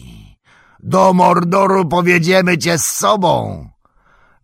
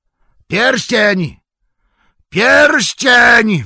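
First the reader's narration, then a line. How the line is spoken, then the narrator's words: Murderous group screaming. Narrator (Polish): wrzasnęli tamci morderczymi głosami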